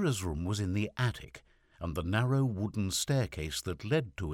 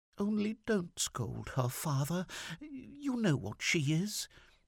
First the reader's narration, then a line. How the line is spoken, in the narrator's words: in a coaxing, timid voice begged him